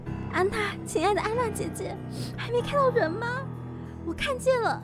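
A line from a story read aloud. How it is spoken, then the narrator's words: Wife crying, asking. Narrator (Chinese): 妻子哭着问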